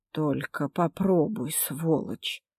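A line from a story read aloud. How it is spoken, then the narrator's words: Muttering. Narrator (Russian): пробормотала тетя Тамара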